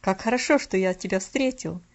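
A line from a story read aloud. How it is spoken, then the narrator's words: Exclamation. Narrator (Russian): воскликнул он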